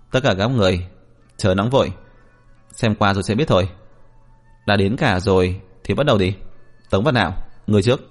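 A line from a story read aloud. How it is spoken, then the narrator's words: Cold, dismissive. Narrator (Vietnamese): Diệp Viễn chỉ cười nhạt nói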